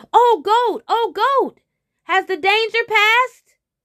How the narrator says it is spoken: the tiger called out

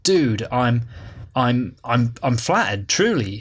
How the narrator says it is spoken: stuttered Daniel

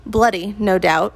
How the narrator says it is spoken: Thor grunted, but he looked pleased

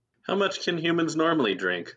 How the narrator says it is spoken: Wesley laughs

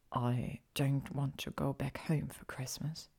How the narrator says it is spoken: he whispered

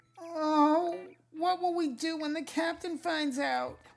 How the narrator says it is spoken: moaned Kipper

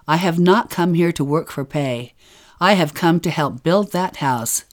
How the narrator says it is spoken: I replied sharply

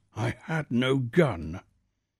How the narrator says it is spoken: the colonel said in a husky voice

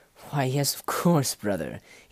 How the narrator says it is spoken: he said and laughed

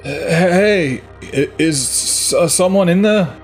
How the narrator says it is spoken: I stuttered with anxiety

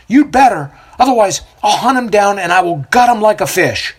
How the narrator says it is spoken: the necklace merchant yells out

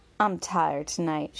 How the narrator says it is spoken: sighed

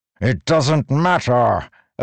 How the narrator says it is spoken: Odium roared

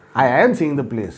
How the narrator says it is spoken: I replied

